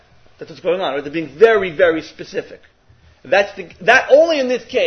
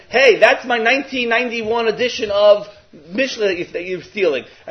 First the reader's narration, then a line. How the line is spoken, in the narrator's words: they're yelling